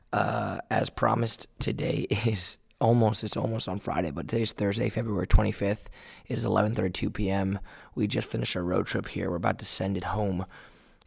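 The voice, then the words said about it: Rusty, weak, worn-out voice. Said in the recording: “I have lost significant amount of vocal projection in my voice, very rusty ... It's pretty beat up”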